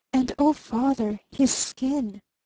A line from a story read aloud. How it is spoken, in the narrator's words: she whispered simply